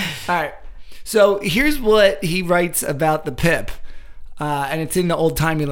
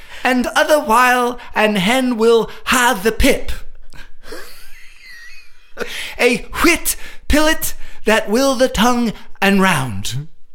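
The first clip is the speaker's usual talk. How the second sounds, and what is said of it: Old-timey 19th century English accent. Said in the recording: “speaking in like a 19th century English accent ... sounds so like British”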